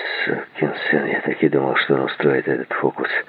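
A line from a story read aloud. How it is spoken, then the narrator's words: Muttered. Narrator (Russian): пробормотал Стив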